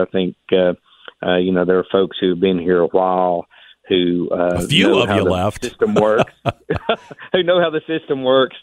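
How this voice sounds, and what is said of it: Southwest Virginia accent. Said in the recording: “people can tell from your accent that you're not a Richmonder ... Southwest Virginia”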